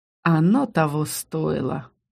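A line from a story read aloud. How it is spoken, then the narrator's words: Pleased snort. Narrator (Russian): довольно хмыкнул Аскани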